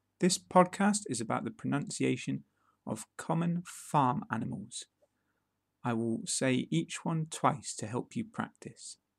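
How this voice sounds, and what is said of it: British English accent. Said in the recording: “a new, free British accent podcast”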